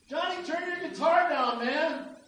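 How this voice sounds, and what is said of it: Angry yelling. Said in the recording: “you don't want to yell at somebody from back here. You sound like you're angry.”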